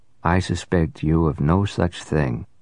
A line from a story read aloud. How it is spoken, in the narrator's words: returned blandly